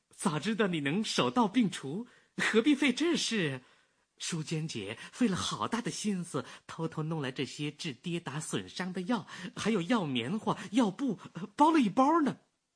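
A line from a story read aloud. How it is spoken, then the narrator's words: Laughing. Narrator (Chinese): 柳絮影笑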